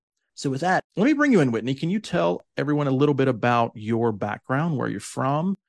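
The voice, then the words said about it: Southern American accent. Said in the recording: “as you can probably tell from my accent, my southern accent specifically”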